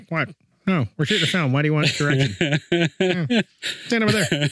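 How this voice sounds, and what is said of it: Imitates another person's voice. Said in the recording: “doing my impression of George Lucas. I'm doing my impression of those George Lucas deep fake videos”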